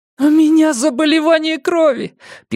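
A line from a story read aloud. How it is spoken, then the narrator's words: Squeak. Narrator (Russian): пискнул Бенямин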